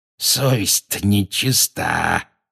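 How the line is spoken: Hoarse wheeze. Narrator (Russian): просипел он

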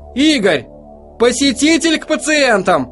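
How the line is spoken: Shout. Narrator (Russian): крикнула

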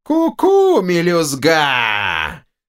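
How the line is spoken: Shrill gloating laughter. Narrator (Russian): Злорадно расхохотался второй голос, визгливый, неприятный

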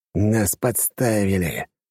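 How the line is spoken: Sighing. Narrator (Russian): вздохнул Юнусов

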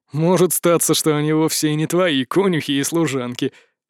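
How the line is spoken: Chuckling. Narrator (Russian): хохотнул граф Шубной

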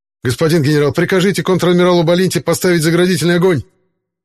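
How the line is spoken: Panicked shout. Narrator (Russian): Окончательно теряя самообладание, выкрикнул командир транспорта

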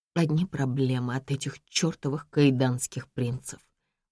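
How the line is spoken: Grumbling. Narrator (Russian): ворчу я

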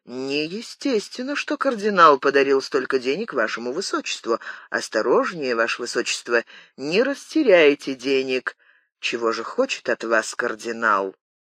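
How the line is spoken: Low undertone. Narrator (Russian): Шевалье говорил герцогу вполголоса

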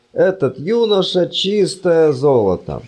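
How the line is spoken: Groaning. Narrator (Russian): простонал декан

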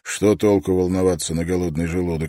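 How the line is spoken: Plain. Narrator (Russian): ответил Строн

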